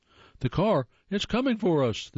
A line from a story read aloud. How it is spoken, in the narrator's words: shriek